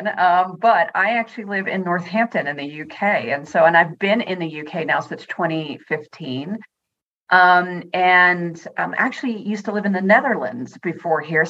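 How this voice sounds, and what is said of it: American accent. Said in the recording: “I can hear an American accent.”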